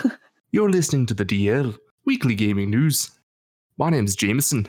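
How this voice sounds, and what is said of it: Usual voice. Nothing is said of it.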